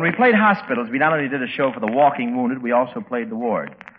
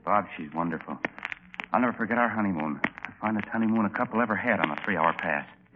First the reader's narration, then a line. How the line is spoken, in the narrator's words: whispered